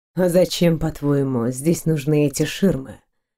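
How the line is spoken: Whisper. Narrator (Russian): Прошептал мужчина

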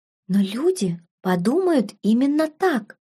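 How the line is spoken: Tearful near whisper. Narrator (Russian): почти прошептала Беладонна, глаза девушки наполнились слезами

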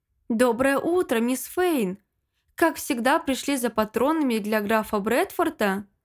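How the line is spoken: Old man's good-natured exclamation. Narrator (Russian): старик Фред добродушно воскликнул

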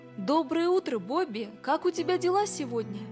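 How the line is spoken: Cheerful speech. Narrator (Russian): радостно сказал

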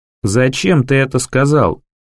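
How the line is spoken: Low chesty question. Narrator (Russian): Снова спрашивает он низким грудным голосом

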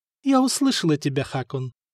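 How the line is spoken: Soft. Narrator (Russian): мягко сказала Мартина

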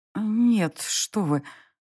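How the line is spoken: Breathed out. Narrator (Russian): выдохнула я

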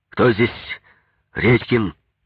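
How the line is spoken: Angry question. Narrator (Russian): спрашиваю сердито

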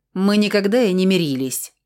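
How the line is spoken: Snapping retort. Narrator (Russian): огрызнулась я

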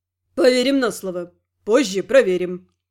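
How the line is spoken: Smirking grunt. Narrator (Russian): хмыкнул Рент

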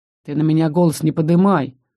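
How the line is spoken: Quiet, stern, curt. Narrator (Russian): Хоть и тихо, но строго обрубил

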